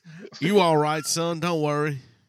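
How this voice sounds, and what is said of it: Put-on Southern US accent. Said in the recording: “You've got the wrong state accent, by the way. ... You're doing something like a Georgia accent. ... Maybe South Texas.”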